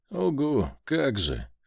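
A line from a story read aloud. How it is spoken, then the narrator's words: Skeptical snort. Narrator (Russian): хмыкнул я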